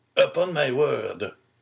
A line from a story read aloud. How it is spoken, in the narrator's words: cried the old man